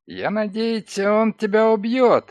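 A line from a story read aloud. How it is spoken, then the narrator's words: Sharp cry. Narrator (Russian): скрикнул он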